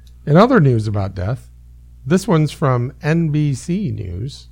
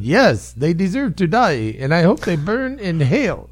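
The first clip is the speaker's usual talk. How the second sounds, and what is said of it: Impression of a terrorist. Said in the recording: “That's my terrorist impression.”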